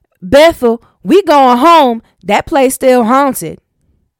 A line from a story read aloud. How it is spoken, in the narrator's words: Ethel came hot-footing it down the steps while shouting